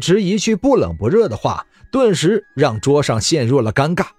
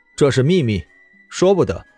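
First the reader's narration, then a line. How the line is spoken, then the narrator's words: Flat, indifferent. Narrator (Chinese): 淡淡的说道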